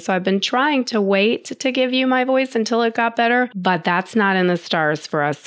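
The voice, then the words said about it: Hoarse, strained voice. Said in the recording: “as you might be able to tell in my voice, I've got a little bit of laryngitis”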